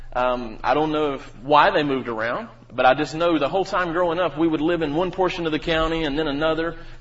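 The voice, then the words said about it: North Carolina Southern accent. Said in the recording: “some of you may detect that I have an accent. ... I am from North Carolina”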